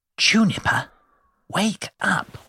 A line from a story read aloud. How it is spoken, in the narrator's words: whispered